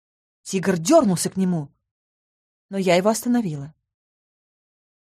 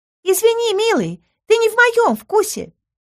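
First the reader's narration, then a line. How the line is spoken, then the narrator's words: Thin high voice. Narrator (Russian): тоненьким голоском сообщил Сальен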